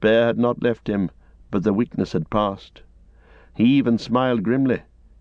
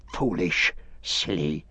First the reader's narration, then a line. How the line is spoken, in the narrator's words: he hissed